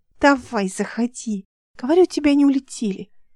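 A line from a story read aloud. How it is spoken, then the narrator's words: Child whispering. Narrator (Russian): почему-то шепотом говорила девочка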